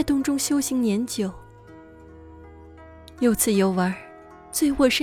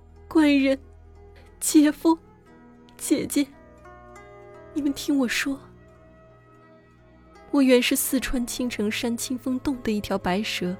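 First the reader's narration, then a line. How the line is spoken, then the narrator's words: Crying. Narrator (Chinese): 素贞哭道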